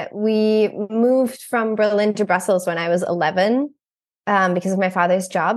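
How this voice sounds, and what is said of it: American English accent. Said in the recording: “I have an American accent.”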